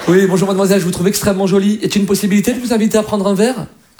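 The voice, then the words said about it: Put-on classy Parisian accent. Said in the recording (French): “c'est vrai qu'un Parisien, quand il drague, c'est quand même classe”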